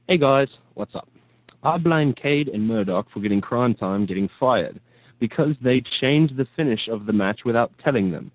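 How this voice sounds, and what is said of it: Put-on English accent. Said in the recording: “It's verbatim with an English accent.”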